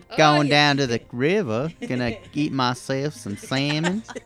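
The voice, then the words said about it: Put-on Southern American accent. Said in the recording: “We're all just talking in southern voices now. ... Everybody has a southern accent now, feller.”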